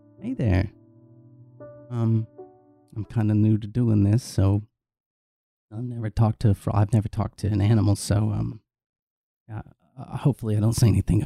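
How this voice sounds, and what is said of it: Very quiet voice. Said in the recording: “in a very quiet voice”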